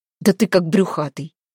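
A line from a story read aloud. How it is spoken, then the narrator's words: Grumbling. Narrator (Russian): буркнул Демка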